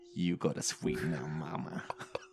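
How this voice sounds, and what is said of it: Sexy imitated male voice. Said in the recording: “the Jeffrey voice ... in his sexy voice”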